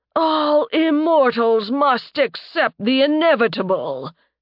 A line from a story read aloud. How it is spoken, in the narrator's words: he boomed